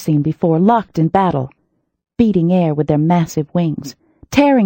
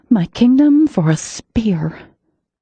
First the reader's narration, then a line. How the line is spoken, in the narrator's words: I muttered